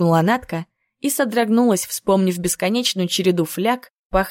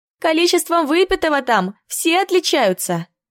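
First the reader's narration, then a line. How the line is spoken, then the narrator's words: Chuckling. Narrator (Russian): хохотнула Рая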